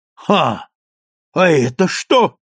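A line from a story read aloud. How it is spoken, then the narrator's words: Shouted. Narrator (Russian): закричал Гринлиф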